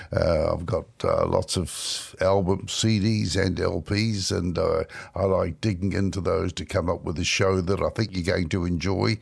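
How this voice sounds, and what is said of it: New Zealand accent. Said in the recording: “the strange accent attached to a bluegrass music show ... this is how I've always spoken, because I come from New Zealand”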